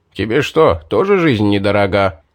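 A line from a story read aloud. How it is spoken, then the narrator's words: Grumbling mage. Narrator (Russian): проворчал маг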